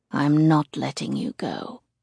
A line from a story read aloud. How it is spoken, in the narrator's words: he murmurs sullenly